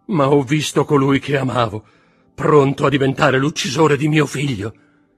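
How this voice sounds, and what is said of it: Anguished, desperate pained tone. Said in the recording (Italian): “con un dolore così straziante, con accento così disperato”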